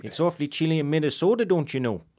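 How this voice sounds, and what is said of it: Put-on Minnesota Canadian-style accent. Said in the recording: “That's a Canadian accent in Minnesota.”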